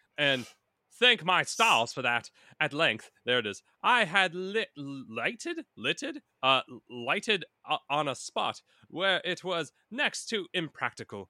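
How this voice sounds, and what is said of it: Put-on British accent. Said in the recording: “I will fade into a British accent. That always happens.”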